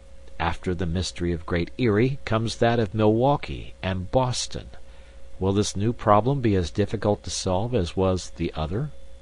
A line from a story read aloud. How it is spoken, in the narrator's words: murmured to myself